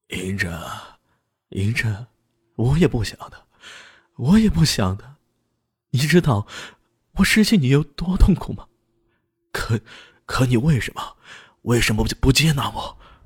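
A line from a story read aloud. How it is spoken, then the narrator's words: Hoarse voice. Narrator (Chinese): 他嘶哑着声音说道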